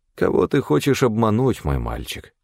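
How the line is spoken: Sighing. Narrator (Russian): вздохнул Амнис

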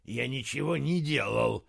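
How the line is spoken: Angry muttering. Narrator (Russian): сердито пробормотал он

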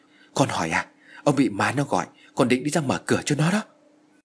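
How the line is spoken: Trembling reply. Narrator (Vietnamese): Bà Hoài run rẩy trả lời

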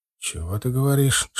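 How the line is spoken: Whisper. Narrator (Russian): шепнул завгар

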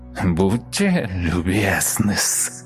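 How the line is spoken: Creaky voice. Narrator (Russian): проскрипела рожа

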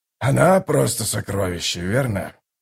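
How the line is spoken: Sighing mumble. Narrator (Russian): Со вздохом пробормотал Драсти

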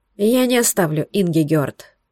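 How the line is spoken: Tired man. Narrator (Russian): устало сказал мужчина

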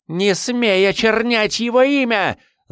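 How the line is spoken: Shouting. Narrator (Russian): закричала она

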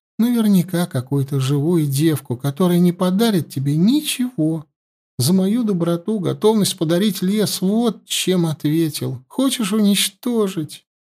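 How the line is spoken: Trembling voice, holding back sobs. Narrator (Russian): Голос девицы дрогнул, она всхлипнула, но от слез удержалась

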